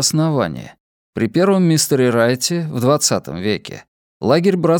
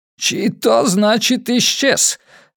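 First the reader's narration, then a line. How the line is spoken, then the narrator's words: Hoarse repetition. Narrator (Russian): хрипло повторил Хасан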